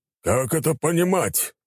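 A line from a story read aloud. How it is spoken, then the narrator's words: Barking, big man. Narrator (Russian): рявкнул крупный гость на владельца отеля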